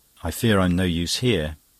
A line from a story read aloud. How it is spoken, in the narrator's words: he said with a brief sigh